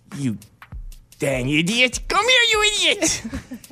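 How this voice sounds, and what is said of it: Voice used for talking to a cat. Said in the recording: “How do you talk to your cat? Do your cat voice.”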